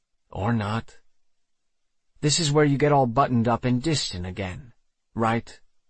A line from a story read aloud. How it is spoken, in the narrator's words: I sighed, hating that he already knew me so well, hating that it had to be like this